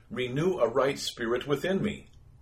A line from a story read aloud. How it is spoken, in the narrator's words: He cried